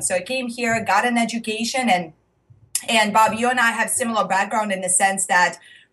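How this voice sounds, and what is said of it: Russian accent. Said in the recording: “If you are hearing the accent, I am originally from Russia.”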